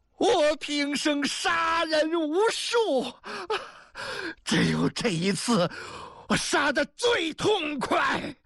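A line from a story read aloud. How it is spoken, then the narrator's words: Wild laughter. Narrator (Chinese): 宋忠忽然仰面狂笑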